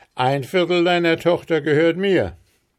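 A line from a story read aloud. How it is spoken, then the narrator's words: Exclaiming. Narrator (German): rief Tom aus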